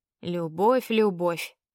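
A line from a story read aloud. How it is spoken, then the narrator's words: Grumbled displeased, elf. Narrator (Russian): проворчал недовольно эльф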